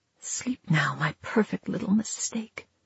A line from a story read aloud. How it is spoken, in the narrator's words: she whispered